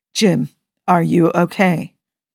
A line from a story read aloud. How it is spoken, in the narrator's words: Spock asked, his voice calm but laden with concern